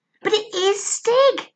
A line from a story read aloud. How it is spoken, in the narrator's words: said Barney excitedly